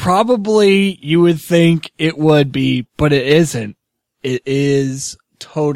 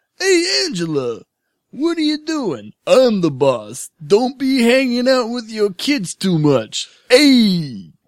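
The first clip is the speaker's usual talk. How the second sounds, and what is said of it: Imitates another person's voice. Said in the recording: “I can do a Tony Danza impression ... I could have sworn that was Alf. That sounds like, that's like a spot on Alf impersonation ... Tony Danza and Alf do sound a little bit alike”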